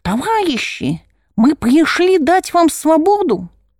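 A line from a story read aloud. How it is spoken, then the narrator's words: Loud, thin, shrill voice. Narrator (Russian): голос у него хоть и громкий, да тонкий и визгливый, прямо как у бабы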